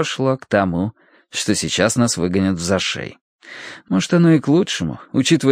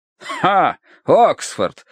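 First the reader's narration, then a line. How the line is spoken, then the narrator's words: Scornful snort. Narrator (Russian): хмыкнул полковник Меринг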